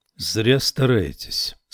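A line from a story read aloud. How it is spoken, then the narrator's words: Calm. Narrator (Russian): спокойно ответил он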